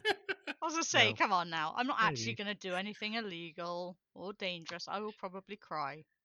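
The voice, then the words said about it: Sarcastic tone of voice. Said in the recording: “say that so sarcastically? ... it sounds sarcastic”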